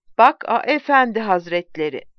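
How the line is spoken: Plain. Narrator (Turkish): dedi

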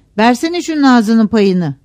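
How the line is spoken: Shouted. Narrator (Turkish): diye bağırdı

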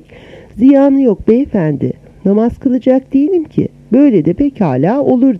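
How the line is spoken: Amused, smiling. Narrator (Turkish): Fakat o gözlerinin içi gülerek

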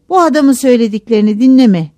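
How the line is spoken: Shouting. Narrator (Turkish): diye bağırıyordu

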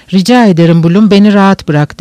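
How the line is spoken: Plain. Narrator (Turkish): dedi

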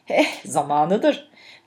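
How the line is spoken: Boss giggling. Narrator (Turkish): patronumun kıkır kıkır gülerek

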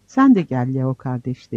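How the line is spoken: Plain. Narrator (Turkish): dedi

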